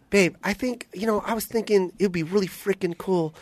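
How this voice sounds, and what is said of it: Higher-pitched imitation of another person's voice. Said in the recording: “A little more high pitch ... You're good at impressions.”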